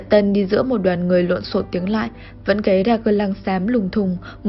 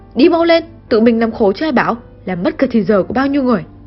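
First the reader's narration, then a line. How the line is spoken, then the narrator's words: Harsh shouting. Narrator (Vietnamese): Tiếng quát tháo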